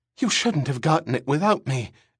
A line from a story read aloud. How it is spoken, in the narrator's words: Erin gasped